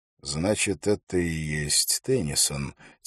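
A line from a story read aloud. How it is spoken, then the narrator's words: Quiet speech. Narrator (Russian): тихо сказал Холт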